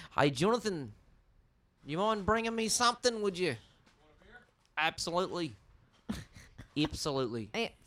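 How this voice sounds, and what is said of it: Put-on New Zealand accent. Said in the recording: “See, it's an E instead of an I.”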